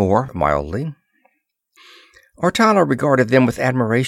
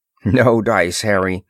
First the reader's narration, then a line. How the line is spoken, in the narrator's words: Ross assured him firmly